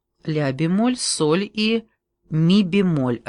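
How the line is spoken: Plain. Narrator (Russian): ответила я

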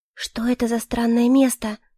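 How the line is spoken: Whispered question. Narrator (Russian): Почему-то шепотом спросила я

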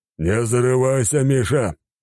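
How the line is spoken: Growled. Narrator (Russian): прорычал он

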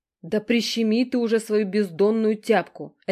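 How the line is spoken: Barked shout. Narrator (Russian): рявкнула я

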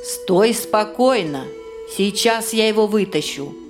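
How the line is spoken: Very calm. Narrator (Russian): как-то очень спокойно предложил Жихарь

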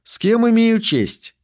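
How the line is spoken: Pleasant-voiced question. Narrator (Russian): приятным голосом спросил Пендергаст

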